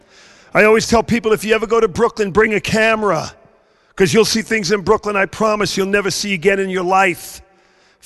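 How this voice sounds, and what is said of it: Strong Brooklyn New York accent. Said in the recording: “you could tell by my very strong accent, I grew up in the very deep South, part of Brooklyn, New York.”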